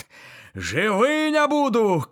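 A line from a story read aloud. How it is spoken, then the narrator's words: Shouting. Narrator (Belarusian): крычыць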